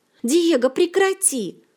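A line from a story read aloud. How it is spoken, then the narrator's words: Shout. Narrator (Russian): закричала Ольга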